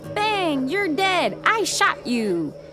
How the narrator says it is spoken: Younglings yell

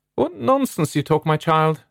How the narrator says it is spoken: her mother exclaimed

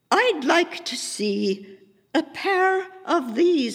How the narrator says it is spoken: I told him, trying to copy Hope's imperious tone, but sounding old and quavery

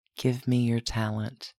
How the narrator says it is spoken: Dominick whispered

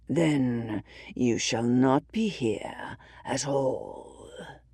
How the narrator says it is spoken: growls

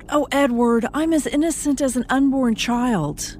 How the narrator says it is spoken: She cried out

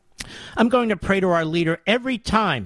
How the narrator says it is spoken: Mary said excitedly

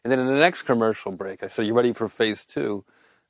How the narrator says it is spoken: I said, just start laughing

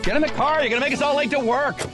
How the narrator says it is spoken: someone yelled

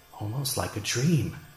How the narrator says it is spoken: he mumbled to himself

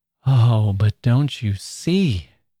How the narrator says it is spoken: exclaimed Laura Glyde

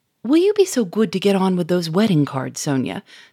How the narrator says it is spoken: said Germain sharply

